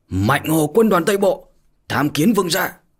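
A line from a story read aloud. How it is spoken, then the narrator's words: Loud formal shout. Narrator (Vietnamese): cao giọng mà hét to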